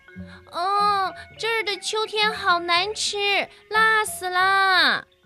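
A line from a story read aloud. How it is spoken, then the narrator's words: Loud squeaking cry. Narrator (Chinese): 小老鼠吱吱地大叫起来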